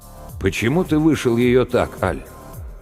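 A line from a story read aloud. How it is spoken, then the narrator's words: Timid but stubborn. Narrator (Russian): Аль ответил, робко, но упрямо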